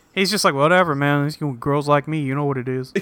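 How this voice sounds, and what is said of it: Impression of Tad. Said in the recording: “That's exactly what he's like. You did a great impression.”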